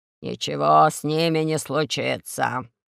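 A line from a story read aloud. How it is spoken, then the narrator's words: Creaky old voice. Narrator (Russian): сказал скрипучим голосом генералиссимус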